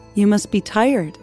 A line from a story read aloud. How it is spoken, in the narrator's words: Empress Wang said